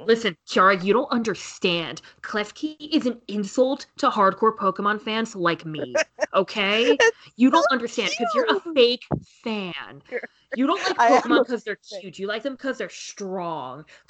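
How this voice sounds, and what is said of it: Gamer dude bro voice. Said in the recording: “my gamer dude bro impression”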